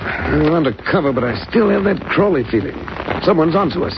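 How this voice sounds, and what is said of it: English accent. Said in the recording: “I judge from your friend's accent, he's a countryman of mine... I'm an Englishman”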